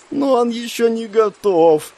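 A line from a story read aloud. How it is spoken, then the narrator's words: Maiden's moan. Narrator (Russian): застонала дева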